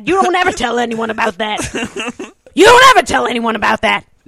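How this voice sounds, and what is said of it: Imitates another person's voice. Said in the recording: “That's my impression of you. ... verbatim what I would say to my brother ... a savant when it comes to mimicry”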